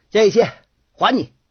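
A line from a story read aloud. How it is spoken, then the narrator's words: Loud yelling. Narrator (Chinese): 马三儿扯着嗓门嚷道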